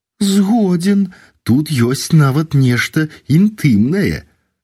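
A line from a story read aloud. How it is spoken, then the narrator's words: Smiling prompt. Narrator (Belarusian): падказаў мне, усміхнуўшыся, Федарук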